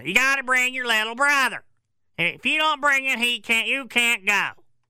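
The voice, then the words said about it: Exaggerated crazy mom voice. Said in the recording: “my crazy mom voice”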